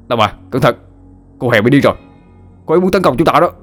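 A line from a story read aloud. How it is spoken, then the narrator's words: Loud alarmed shout. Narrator (Vietnamese): Hậu hét lớn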